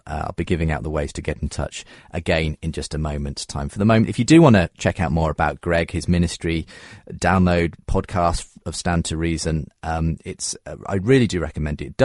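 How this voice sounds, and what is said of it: British accent. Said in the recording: “I love listening to the British accent. You all sound so intelligent.”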